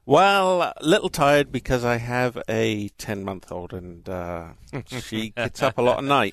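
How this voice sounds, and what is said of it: English Southampton accent. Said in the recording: “I can tell from your accent you're probably not from around here ... I'm actually from Southampton in England”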